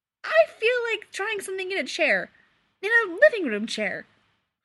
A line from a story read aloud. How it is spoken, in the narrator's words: Clark said brightly